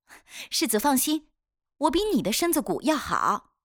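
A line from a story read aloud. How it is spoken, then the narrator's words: Laughing. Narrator (Chinese): 威农笑了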